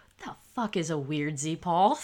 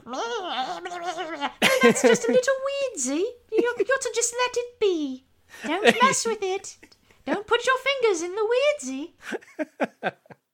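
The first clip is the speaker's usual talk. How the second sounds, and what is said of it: Put-on British Peppa Pig accent. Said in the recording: “something that you have to say in like a British accent or something. Like some kind of like Peppa Pig shit”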